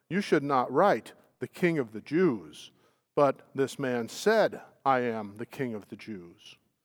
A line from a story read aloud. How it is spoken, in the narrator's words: Pilate answered